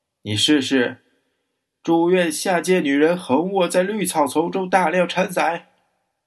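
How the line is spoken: Roaring shout. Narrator (Chinese): 他吼叫着

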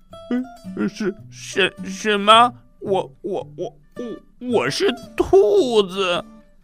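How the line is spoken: Shocked stammering. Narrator (Chinese): 达利毕非常吃惊，他结结巴巴的说

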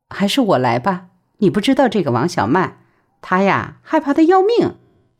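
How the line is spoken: Laughing. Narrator (Chinese): 陆文婷笑道

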